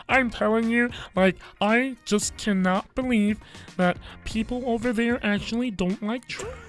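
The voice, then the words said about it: Kermit the Frog voice impression. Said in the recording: “My Kermit impression has improved ... I'm a very aggressive Kermit”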